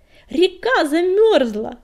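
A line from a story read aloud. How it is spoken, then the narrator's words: Joyful shout. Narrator (Russian): ликуя крикнула она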